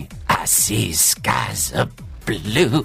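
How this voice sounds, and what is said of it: Scratchy deep singing imitation. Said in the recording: “He's got a very deep voice ... His voice isn't deep, it's scratchy.”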